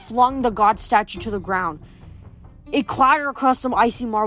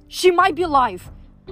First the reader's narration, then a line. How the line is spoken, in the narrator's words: I said desperately